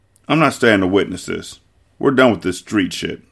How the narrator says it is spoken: Lena said firmly

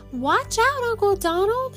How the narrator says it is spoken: shouted Huey, Dewey, and Louie

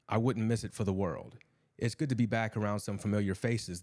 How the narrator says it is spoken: the man said

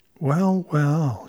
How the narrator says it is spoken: she purred

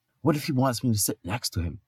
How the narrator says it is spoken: whispered Thor to Loki

